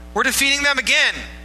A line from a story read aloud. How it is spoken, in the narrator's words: the army of Benjamin shouted